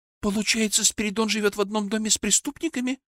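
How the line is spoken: Trembling voice, asking. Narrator (Russian): дрогнувшим голосом спросила меня Муромцева

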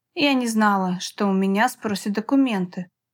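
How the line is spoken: Whispered. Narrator (Russian): прошептала она

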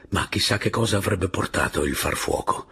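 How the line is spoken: Whisper. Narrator (Italian): bisbigliò Robert

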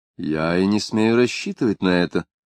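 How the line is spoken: Calm reply. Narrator (Russian): спокойным тоном ответил Калиостро

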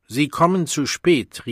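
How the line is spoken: Reproachful call. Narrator (German): rief der Vorsänger der Gruppe ihr tadelnd zu

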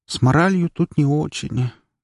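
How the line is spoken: Sad remark. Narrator (Russian): грустно заметила Кира

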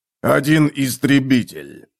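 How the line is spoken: Growled. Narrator (Russian): прорычал Готрек

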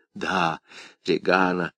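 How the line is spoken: Whispered. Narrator (Russian): зашептал Деннингс

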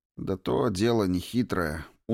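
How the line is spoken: Glum reply. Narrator (Russian): уныло ответил он наконец

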